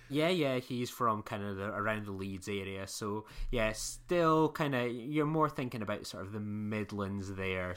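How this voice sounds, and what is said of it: Scottish accent. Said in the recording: “my Scottish dulcet tones”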